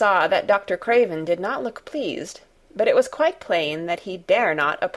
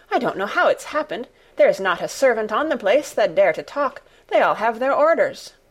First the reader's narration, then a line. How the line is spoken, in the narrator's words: she panted